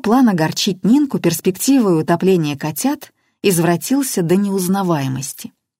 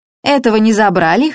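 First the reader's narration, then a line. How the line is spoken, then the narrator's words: Neighbor scoffing. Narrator (Russian): хмыкнула соседка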